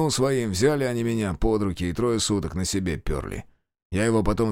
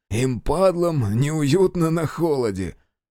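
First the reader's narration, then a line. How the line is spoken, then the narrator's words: Laughing. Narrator (Russian): Майор засмеялся, страшно скали редкие зубы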